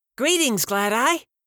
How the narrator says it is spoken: shrieked the tentacled, four-eyed, crab-legged creature

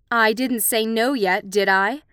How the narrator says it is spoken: Julia snapped, her eyes glittering

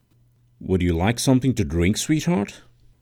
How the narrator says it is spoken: her dad asked

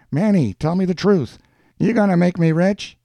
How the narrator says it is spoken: Schultz felt something close to butterflies in his stomach every time he called out

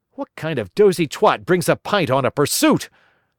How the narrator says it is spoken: I yelled

